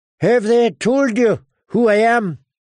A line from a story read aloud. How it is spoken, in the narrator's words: Sir Gregor grunted through his breaths